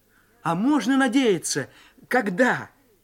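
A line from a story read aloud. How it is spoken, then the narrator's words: Plain. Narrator (Russian): спросил я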